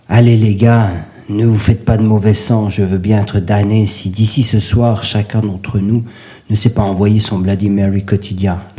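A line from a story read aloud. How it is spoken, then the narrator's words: Laughing voice. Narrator (French): lança-t-il d'une voix rieuse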